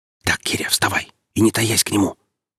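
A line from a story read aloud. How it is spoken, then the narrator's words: Whisper. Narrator (Russian): прошептал Шершавый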